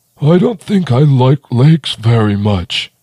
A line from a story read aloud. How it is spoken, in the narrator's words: Squonk wheezed